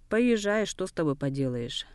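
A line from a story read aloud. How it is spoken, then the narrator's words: Annoyed grumble. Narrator (Russian): С досады проворчал Дамба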